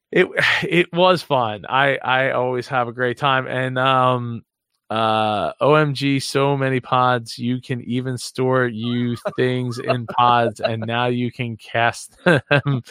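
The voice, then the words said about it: Hoarse, fading voice. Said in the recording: “I am losing my voice.”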